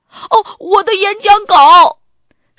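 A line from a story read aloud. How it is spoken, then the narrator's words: Loud cry. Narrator (Chinese): 亚瑟也大声地叫起来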